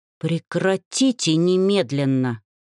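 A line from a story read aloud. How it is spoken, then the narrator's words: Angry demand. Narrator (Russian): зло потребовал дракон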